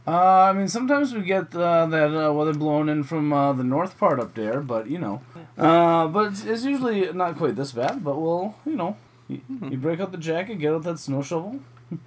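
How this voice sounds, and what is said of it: Sudden shift into regional accent. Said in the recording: “Why did my accent change all of a sudden?”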